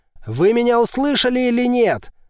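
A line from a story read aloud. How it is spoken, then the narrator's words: Barked. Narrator (Russian): рявкнул Голанов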